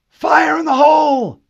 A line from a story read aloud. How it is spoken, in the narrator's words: yelled